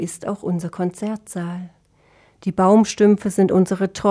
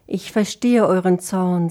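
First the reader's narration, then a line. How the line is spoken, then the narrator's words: Plain. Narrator (German): sagte Sinfonia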